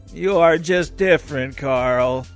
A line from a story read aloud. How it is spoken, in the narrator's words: said his mom in a moaning tone